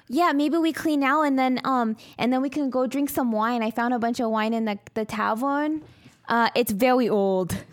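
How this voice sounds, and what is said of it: Imitates another person's voice. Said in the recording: “why is the DM doing a Rosie Perez impression?”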